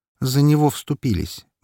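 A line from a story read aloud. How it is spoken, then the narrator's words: Gloomy. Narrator (Russian): мрачно сказала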